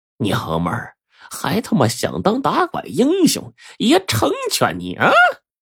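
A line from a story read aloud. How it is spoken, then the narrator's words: Sneering, vicious. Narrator (Chinese): 有个人奸笑着，恶狠狠的对着乔小春说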